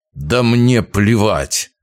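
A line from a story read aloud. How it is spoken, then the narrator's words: Through gritted teeth. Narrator (Russian): процедил губернатор сквозь зубы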